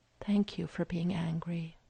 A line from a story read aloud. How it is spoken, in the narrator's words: she murmurs